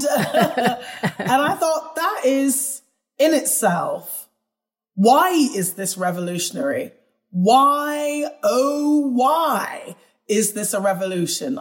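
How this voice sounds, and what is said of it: British accent. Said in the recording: “especially in the UK, where, as you could tell by my accent, I was born”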